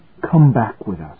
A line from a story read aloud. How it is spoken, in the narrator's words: whispered